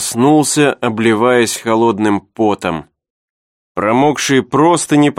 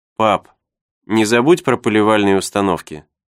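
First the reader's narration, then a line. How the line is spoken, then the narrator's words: Said calmly. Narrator (Russian): Николь спокойно сказала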